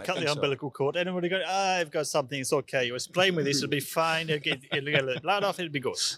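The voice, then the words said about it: Put-on Italian accent. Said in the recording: “That was an Italian accent,”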